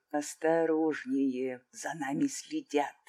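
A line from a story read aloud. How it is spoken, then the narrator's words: Whisper. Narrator (Russian): шепнул ей Линар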